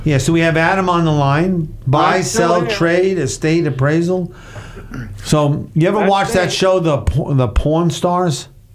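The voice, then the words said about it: New York accent. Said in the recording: “that's my New York accent”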